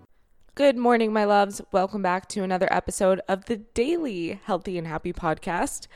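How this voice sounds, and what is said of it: Scratchy early-morning voice. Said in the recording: “my voice is that scratchy sound when you haven't talked to anyone yet during the day because it is early as F”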